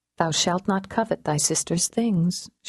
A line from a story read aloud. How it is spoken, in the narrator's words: she told herself quietly